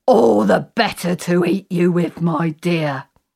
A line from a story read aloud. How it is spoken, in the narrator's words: the wolf, in his own wolf voice he said